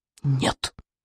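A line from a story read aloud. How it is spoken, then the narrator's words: Whispered reply. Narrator (Russian): шепнул в ответ Икинг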